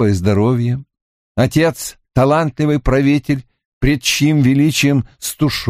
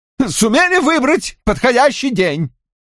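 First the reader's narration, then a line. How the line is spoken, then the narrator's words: Yelling king. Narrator (Russian): завопил король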